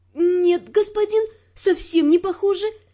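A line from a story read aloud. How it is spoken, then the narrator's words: Timid babbling. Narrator (Russian): пролепетала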